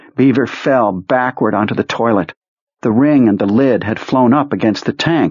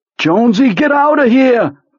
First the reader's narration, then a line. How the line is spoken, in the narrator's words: Beaver shouted